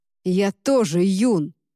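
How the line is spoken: Growled. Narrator (Russian): прорычал Люк

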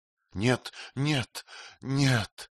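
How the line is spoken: Moaning. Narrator (Russian): стонал Магарадж Кунвар

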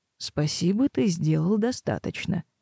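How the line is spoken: Calm, firm interruption. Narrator (Russian): спокойно, но непререкаемо прервал Блесс

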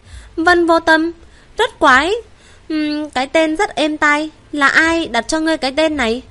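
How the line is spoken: Smiling. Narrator (Vietnamese): Vân Triệt mỉm cười nói

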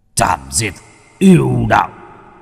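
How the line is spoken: Shouting. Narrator (Vietnamese): Ông ta quát lên

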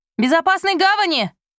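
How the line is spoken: Shouted farewell. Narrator (Russian): крикнула им вслед Райбер

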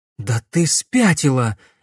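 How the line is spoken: Breathless exhale. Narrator (Russian): выдохнула Глория

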